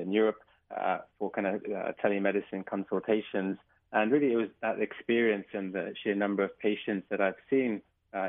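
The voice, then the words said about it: English accent. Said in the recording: “as you can probably tell from my accent. I'm from England”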